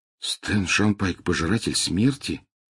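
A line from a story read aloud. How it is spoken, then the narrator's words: Muttering. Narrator (Russian): пробормотал Гарри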